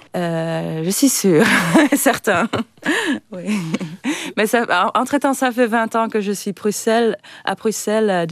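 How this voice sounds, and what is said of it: Slight northern French accent. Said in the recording (French): “Le petit accent que vous avez à nous, il vient du Nord.”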